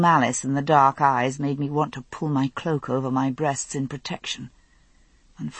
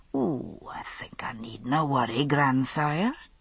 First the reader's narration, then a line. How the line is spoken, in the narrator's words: he said softly